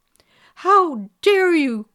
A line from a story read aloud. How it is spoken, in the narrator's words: cried the fairy